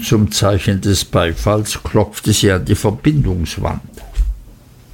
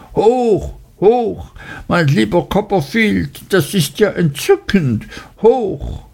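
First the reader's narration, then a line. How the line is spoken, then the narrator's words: Shrill enthusiastic shout. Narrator (German): Sie tat es mit großer Begeisterung und rief mit schriller Stimme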